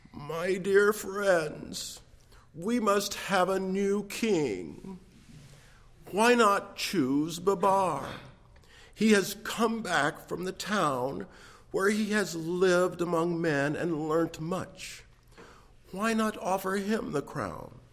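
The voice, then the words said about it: Quavering old man's voice. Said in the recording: “in his quavering voice”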